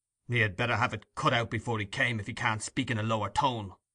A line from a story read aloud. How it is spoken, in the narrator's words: said Monks grimly